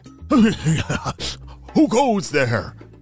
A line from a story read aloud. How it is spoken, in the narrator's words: said Corbin's dad, flapping his long wings around frantically